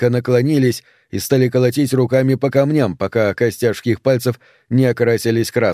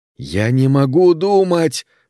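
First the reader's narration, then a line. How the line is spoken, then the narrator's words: Exclaimed. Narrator (Russian): воскликнули они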